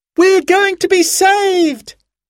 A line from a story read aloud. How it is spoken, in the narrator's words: yelled Sarah, jumping up in excitement